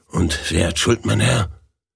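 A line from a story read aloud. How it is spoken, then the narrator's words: Whisper. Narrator (German): Der Verkäufer ... flüsterte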